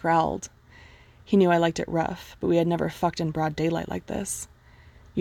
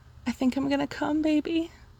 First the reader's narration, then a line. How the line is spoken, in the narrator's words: moaned in ear